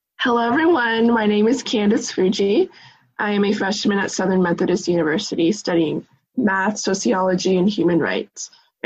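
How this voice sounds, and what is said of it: Hoarse, worn-out voice. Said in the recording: “So much yelling like at the march. ... My voice is still gone.”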